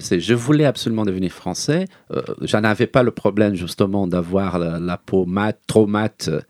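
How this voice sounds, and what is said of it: Lasting non-native accent in French. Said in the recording (French): “j'ai mon accent, que j'aurai toute ma vie”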